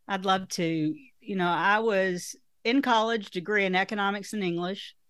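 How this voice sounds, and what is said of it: Strong Southern American accent. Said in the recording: “you're Southern, and your accent is stronger than mine”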